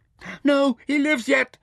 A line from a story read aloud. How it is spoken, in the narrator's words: screamed Mintaka fiercely